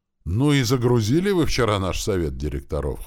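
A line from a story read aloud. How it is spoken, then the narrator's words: Snort. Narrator (Russian): хмыкнул Рил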